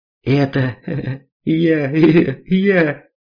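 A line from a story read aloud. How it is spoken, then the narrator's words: Clear speech after laughter. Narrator (Russian): Жмых наконец отсмеялся и членораздельно проговорил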